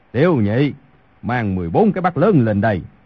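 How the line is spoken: Loud call. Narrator (Vietnamese): cao giọng gọi

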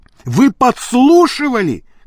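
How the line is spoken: Shouted. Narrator (Russian): крикнул он

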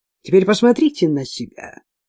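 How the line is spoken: Quiet continuation. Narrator (Russian): Негромко продолжал

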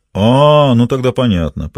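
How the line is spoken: Knowing drawl. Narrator (Russian): понимающе протянул Лагранж

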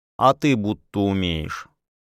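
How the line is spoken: Drawled. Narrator (Russian): протянула Дилька

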